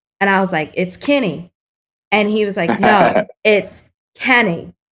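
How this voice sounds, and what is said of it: Texas accent. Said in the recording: “my Texas accent ... it's my Texas accent.”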